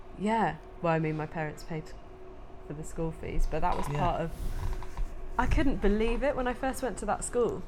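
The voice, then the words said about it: Posh English accent. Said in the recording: “a posh school, obviously, because you can tell by my accent, probably”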